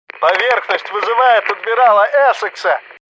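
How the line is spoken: Shout, unfamiliar voice. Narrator (Russian): прокричал незнакомый голос

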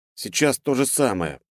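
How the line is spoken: Muttered. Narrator (Russian): пробормотал Диман

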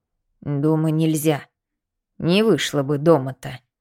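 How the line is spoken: Old woman muttering. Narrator (Russian): забормотала старуха

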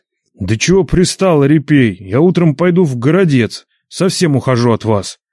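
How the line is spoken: Angry, nearly shouting. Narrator (Russian): чуть не крикнул Нечай, вдруг озлясь на беспутую бабу

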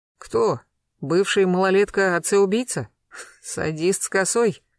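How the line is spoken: Snort. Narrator (Russian): хмыкнул Гектор

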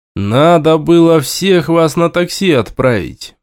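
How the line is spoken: Gloomy statement. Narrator (Russian): мрачно констатировал я

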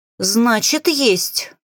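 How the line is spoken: Growling. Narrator (Russian): рыкнула я

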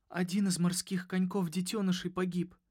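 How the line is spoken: Sobbing. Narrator (Russian): всхлипнула она

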